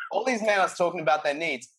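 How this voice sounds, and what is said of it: Poor put-on South American accent. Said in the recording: “That was a fucked up South American accent.”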